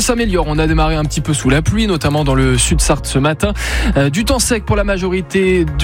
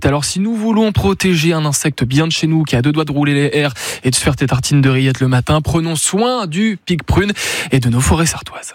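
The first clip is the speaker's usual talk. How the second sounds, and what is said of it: Put-on Sarthe regional accent. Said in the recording (French): “j'adore cet accent. ... L'accent sartois, bah ouais, c'est le patois sartois”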